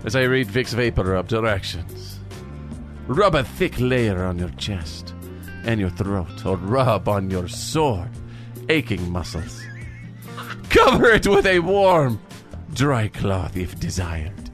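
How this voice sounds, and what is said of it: Exaggerated sexy accent. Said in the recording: “I'm going to read this label in my sexiest accent ... We are reading in our sexiest accent.”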